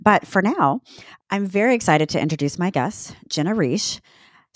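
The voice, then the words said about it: Rough voice from a cold. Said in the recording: “if you can hear from my very sexy voice, I have a cold”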